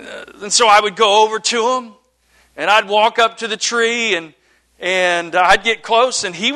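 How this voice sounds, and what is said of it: Usual voice. Nothing is said of it.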